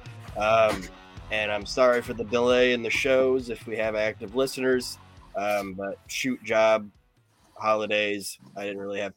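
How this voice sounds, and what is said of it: Rough voice. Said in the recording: “I sound a little rough”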